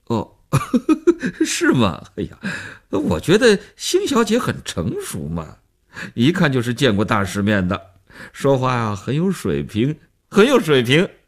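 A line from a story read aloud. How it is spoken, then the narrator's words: Laughing man analyzing. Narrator (Chinese): 那男人笑着做分析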